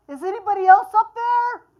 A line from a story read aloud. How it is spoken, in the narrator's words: Jack yelled